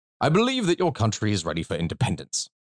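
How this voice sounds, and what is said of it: Fake old-fashioned British accent. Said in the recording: “I'm going to put on like this old fake British one”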